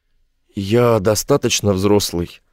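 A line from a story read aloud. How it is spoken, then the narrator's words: Hoarse wheeze. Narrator (Russian): просипел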